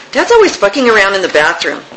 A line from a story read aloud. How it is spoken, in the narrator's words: he said irritably